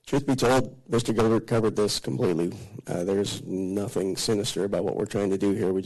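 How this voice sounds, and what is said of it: Unwell voice, not its normal sound. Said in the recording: “I'm fighting a little flu bug here, so my voice isn't what it normally is.”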